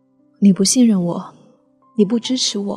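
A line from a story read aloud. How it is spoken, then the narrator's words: Crying. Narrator (Chinese): 我哭着说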